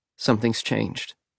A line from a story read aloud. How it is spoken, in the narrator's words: Archie said, even more quietly